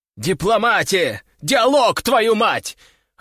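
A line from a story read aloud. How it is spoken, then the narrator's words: Shouting inwardly. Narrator (Russian): орал в своей голове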